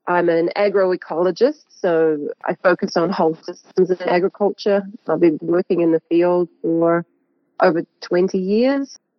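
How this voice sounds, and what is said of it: Slight New Zealand accent. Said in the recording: “your listeners might pick up a slight accent... I'm New Zealand born”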